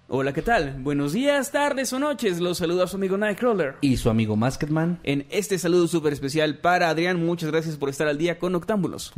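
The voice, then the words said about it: Radio announcer voice. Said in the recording (Spanish): “un saludo con voz del locutor ... con voz de locutor.”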